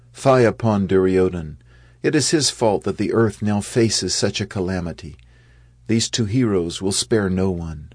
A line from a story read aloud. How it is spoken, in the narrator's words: Some of them called out